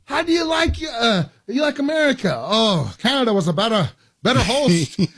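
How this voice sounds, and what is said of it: Bad put-on Croatian accent. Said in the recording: “that's my Croatian accent. ... That was terrible.”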